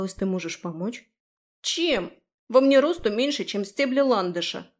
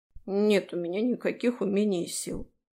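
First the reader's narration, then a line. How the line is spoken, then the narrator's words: Grumble. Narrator (Russian): буркнул он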